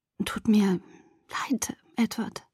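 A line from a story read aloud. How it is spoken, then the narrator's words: Whisper. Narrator (German): flüsterte ich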